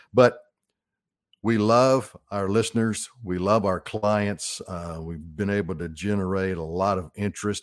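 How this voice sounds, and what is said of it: Arkansas accent. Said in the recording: “this old Arkansas boy with this accent that I have. Hey, it's a God-given Arkansas accent.”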